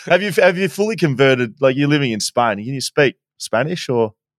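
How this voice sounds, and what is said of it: Australian accent. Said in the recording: “hearing that Aussie accent”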